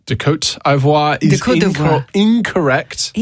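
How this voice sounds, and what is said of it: Fantastic put-on French accent. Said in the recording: “That was a fantastic French accent.”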